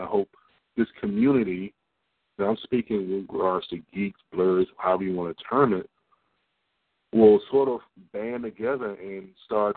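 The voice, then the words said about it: Rough, sick-sounding voice. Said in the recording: “Sorry for my voice, but coming from a cold.”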